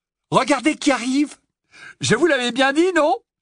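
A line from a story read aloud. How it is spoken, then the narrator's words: Shouting crowd. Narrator (French): Il y eut des cris, des hurlements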